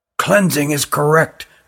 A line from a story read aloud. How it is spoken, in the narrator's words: whispered Ruggum to Jilin